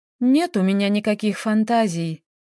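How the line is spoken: Sighing, exhausted. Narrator (Russian): вздохнула Таисия

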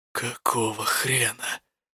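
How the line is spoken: Quiet breathless indignation. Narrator (Russian): негодовал тихо, словно у него не хватало дыхания гневаться

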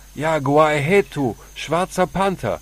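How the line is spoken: Leader calling out. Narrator (German): rief der Anführer

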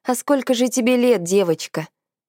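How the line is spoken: Man's snort. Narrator (Russian): хмыкнул мужчина

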